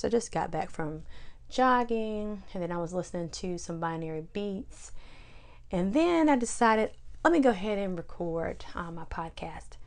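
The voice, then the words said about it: Slightly hoarse voice. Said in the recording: “apologize for my voice, it's a little hoarse.”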